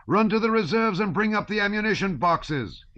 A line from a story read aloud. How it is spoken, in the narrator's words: he yelled, angrily